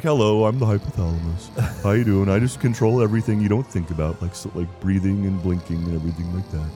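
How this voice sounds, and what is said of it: Very monotone droning character voice. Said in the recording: “does a very monotone voice.”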